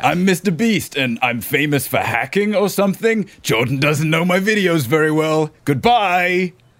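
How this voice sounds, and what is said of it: Imitates another person's voice. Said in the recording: “you should do voice actor work ... Thanks, for the cameo”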